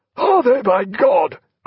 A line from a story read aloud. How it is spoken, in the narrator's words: cried Jack